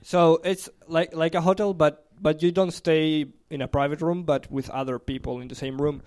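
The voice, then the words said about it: Speaks with a non-native accent. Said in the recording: “if you don't understand something I say because of my accent”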